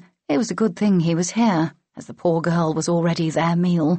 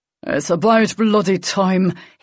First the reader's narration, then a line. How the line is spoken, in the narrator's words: growled